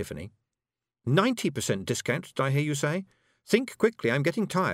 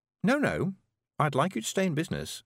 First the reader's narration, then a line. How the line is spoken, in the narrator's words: said Tiffany